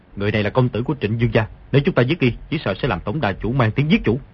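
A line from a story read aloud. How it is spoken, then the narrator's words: Lowered voice. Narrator (Vietnamese): hạ giọng nói với Ngô Lục Kỳ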